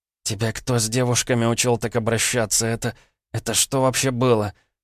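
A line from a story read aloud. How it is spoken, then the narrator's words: Groaning. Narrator (Russian): Простонала она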